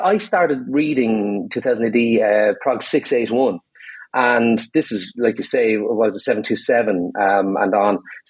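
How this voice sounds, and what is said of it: Irish accent. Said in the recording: “one bit might be obvious from me accent, you know, because I'm pretty Irish myself”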